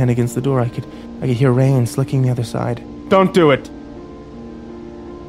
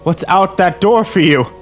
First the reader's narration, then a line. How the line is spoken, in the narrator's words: He asked loudly